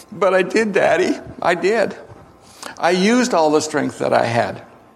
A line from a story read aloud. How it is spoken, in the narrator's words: Defeated, the boy sobbed back